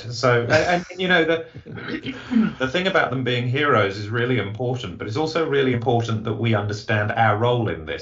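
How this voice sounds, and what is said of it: English accent. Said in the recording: “English people, you can tell from my accent, that's where I was born”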